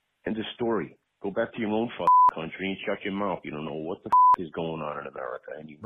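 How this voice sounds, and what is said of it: Rhode Island accent. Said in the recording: “that's a Rhode Island accent. That's not a Boston accent,”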